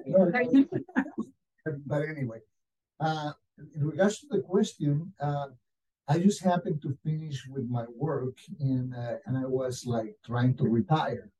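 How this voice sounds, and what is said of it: Strange-sounding accent. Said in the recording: “I know that I speak funny. I got a strange accent.”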